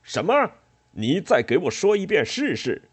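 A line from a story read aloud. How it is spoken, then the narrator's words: Angry roar from below. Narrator (Chinese): 突然，楼下又传来冠太郎的怒吼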